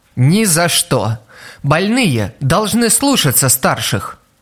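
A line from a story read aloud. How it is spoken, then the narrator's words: Gentle but firm, motherly. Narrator (Russian): Ласково, но непреклонно, как заботливая мама, возразила Тодо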